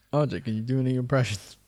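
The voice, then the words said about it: Imitates another person's voice. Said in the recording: “That's my Alex impression.”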